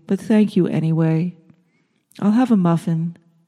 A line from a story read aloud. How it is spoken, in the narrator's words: Florence said softly